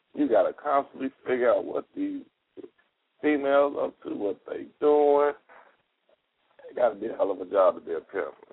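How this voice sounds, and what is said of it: Hoarse, strained, fading voice. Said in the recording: “excuse my voice ... My voice kind of went out.”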